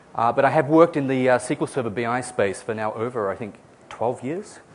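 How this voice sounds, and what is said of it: Australian accent, partly Americanized. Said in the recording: “I am Australian. I've been living in the US for the past 4 years, so my accent is a little confused.”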